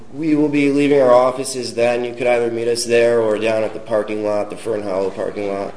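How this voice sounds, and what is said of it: Unwell, strained-sounding voice. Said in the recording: “excuse my voice, I'm getting over a cold”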